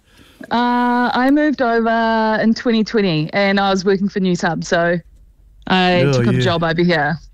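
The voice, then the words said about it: New Zealand accent. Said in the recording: “You are not an expat Kiwi, are you ... I can hear that accent.”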